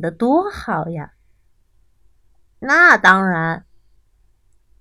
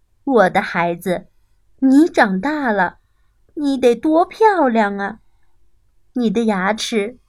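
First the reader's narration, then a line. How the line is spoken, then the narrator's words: Mother's admiring exclamation. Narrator (Chinese): 鳄鱼妈妈都会感叹地说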